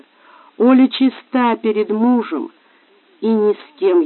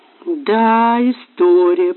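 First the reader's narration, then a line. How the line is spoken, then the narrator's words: Drawl. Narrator (Russian): протянула Настя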